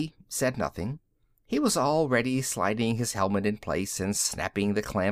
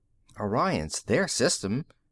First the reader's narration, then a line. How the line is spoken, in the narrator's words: Tony muttered